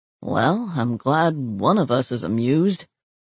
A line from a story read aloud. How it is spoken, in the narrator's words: he grumbled